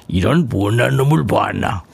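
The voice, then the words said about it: Imitates another person's voice. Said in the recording (Korean): “이순재 씨 성대모사 잘한다요 ... 뭐 좀 비슷하지 않나요? ... 뭐 비슷하잖아요. ... 똑같죠.”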